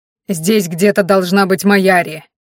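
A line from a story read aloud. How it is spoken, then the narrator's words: Bark. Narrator (Russian): рявкнул Ранхаш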